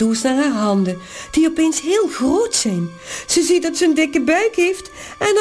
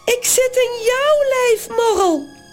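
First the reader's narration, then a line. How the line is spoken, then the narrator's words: Shrieking. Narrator (Dutch): gilt ze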